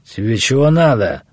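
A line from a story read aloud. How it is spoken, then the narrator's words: Sharp shout. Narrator (Russian): прикрикнул Наму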